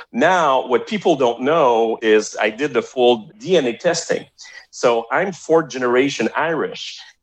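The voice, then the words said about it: French-Canadian accent. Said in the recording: “hear an accent, right? I'm talking funny ... my accent is from Montreal, right? It's a French-Canadian accent.”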